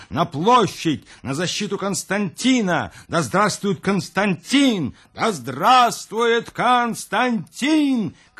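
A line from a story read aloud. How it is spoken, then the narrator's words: Soldiers shouting together. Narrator (Russian): кричали солдаты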